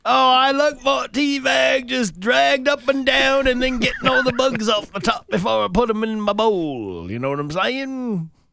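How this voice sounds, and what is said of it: Questionable put-on Australian accent. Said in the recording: “Is that even an Australian accent? ... I don't even know what that is.”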